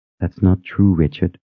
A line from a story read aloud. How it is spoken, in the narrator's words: said in a quiet tone